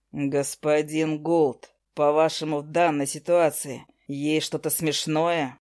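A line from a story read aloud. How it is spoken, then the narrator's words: Icy question. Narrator (Russian): Ледяным голосом спросил Август Видар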